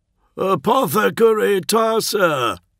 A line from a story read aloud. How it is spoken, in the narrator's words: boomed Bombastus